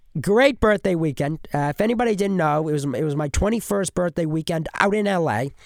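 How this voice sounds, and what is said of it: Congested, stuffy voice. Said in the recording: “you could probably hear that in my voice ... My whole head's congested”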